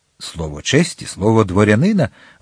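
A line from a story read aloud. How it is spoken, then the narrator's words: Sincere exclamation. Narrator (Ukrainian): вигукнув Д'Артаньян з такою щирістю, яка не лишала місця для сумнівів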